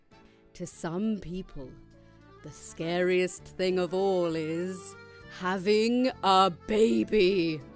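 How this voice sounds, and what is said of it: Spooky storytelling voice. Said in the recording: “back to the spooky voice.”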